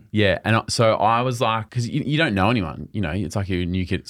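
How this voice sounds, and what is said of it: Australian accent. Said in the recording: “You're the only Australian there ... an Australian accent”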